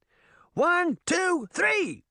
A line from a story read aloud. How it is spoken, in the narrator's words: she heard Puck shout